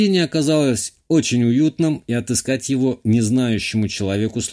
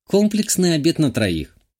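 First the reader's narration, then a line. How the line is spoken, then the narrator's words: Calm. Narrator (Russian): спокойно сделала заказ Шитова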